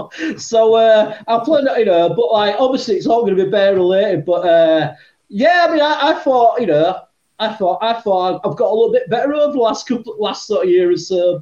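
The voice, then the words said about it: Yorkshire accent. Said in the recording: “I have got a Yorkshire accent”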